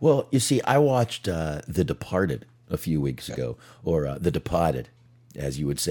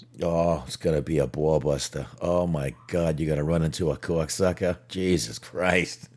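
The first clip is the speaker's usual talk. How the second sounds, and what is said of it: Put-on Boston accent, Bill Burr impression. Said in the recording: “a Boston accent ... a decent Bill Burr”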